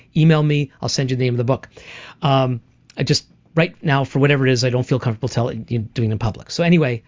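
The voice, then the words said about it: Speaking too fast. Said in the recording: “I'm talking too fast, so let me try to slow down.”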